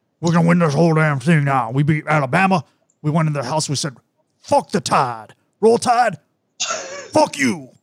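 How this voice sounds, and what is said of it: Impression of Coach O's accent. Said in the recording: “Coach O's accent is what I'm inducting ... I started to lose it. I started to turn into like the villain from True Detective at the end there ... Most fun accent to do since Spurrier.”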